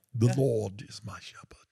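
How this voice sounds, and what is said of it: Poor attempt at English accent. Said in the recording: “I was going to do this in my English sounding. ... Terrible. ... I don't know what that is. That's not English.”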